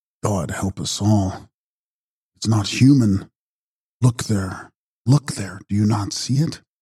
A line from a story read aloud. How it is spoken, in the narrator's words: said in a low voice